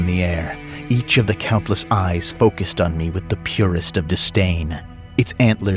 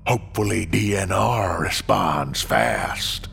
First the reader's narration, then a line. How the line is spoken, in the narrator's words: it said in a broken voice that echoed Scooter's drawl